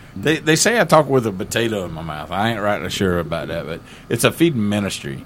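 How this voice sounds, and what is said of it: Strong country Southern US accent. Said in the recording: “I have an accent. I'm sorry. I think I'm country. ... You've got a full-on accident.”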